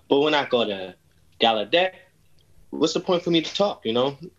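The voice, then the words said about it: New York accent. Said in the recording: “I have a New York accent. You could just tell I'm from New York.”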